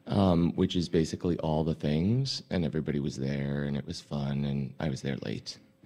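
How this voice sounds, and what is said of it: Hoarse, sick-sounding voice. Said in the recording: “Why do you sound sick? ... I was screaming over music. That's really what you're hearing. ... I've never heard you like this.”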